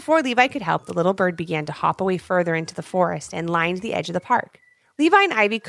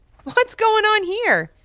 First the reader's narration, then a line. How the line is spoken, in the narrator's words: giggled Levi as if he was talking to the bird